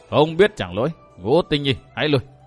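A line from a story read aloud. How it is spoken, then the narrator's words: Laughing, solemn voice. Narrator (Vietnamese): Gã nho sĩ trung niên cười to bằng giọng nói trang nghiêm bảo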